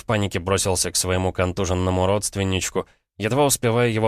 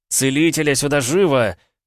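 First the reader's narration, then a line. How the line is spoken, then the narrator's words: Shouting. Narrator (Russian): прокричал я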